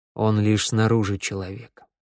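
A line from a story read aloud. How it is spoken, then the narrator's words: Gentle reminder. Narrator (Russian): мягко напомнил Вик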